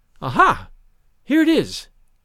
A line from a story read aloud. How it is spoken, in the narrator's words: she exclaimed vivaciously